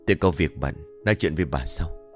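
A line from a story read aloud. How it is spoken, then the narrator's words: Whisper. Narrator (Vietnamese): Ông ... thì thầm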